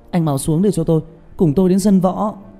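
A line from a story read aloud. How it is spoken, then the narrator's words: Shouting. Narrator (Vietnamese): Trương Tiểu Nhị hét lên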